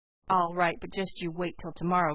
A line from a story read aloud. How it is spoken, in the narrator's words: growled Dan